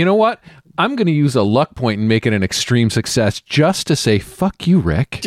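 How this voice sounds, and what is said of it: Usual voice. Nothing is said of it.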